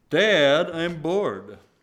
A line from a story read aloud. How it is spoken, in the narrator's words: Dan called out loudly from the back of the room